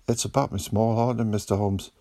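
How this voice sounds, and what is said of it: Scottish Highlands accent. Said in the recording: “blurted out in what sounded like a Highlands accent”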